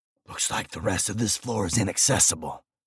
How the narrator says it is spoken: I whispered

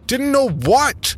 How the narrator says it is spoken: I shouted

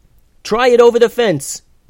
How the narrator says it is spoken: yelled Eleanor

